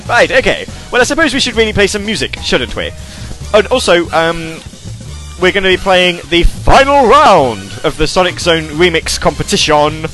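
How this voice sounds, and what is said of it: British accent. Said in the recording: “My accent? ... I, I do love your British accent”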